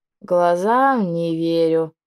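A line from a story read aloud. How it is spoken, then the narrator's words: Creaky dragoness voice. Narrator (Russian): проскрипела драконица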